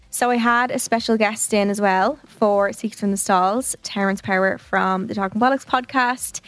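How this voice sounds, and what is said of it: Hoarse voice. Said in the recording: “My voice is hoarse at this point.”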